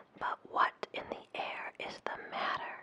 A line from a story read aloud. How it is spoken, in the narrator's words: he cried to the millions and millions and millions and millions and millions and millions of angry people